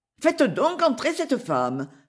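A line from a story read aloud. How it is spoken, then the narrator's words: Resolute exclamation. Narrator (French): s'écria Lady Janet, prenant une résolution avec son horreur ordinaire de l'incertitude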